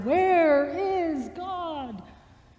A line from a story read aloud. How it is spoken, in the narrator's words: The boy screamed